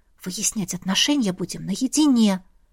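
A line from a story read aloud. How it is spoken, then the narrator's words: Quiet speech. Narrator (Russian): тихо сказала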